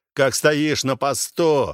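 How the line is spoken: Hateful barked command. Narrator (Russian): рявкнул он, скрестив воедино ненависть к жентиларам и требования устава

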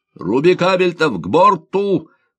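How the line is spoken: Shouted through a megaphone. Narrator (Russian): почти одновременно с адмиралом крикнул Лисовский, держа рупор

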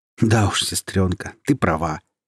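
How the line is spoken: Amused, after laughter. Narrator (Russian): отсмеявшись, произносит Йорик

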